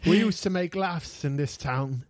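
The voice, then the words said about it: Badly done put-on accent. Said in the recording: “sorry if my accent is terrible.”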